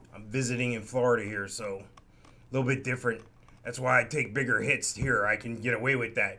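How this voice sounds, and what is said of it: Rough, raspy voice. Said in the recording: “my voice sounds really rough. It's the difference in humidity.”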